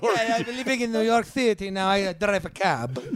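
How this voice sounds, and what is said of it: Put-on New York accent, vampire-like. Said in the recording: “give us your best New York imitation ... He always sounds a little bit like a vampire.”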